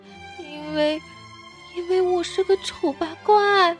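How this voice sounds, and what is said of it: Quiet, hesitant voice. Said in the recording (Chinese): “小声地说”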